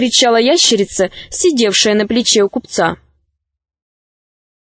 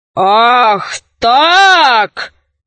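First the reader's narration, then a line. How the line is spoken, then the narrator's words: Knight's roar. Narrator (Russian): взревел рыцарь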